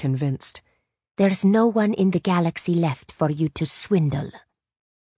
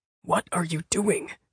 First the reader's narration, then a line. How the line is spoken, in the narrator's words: Finn whispered